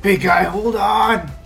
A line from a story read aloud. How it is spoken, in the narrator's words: Druk is also pretty single-minded about these things, and I think he's gonna you know, yell at Sven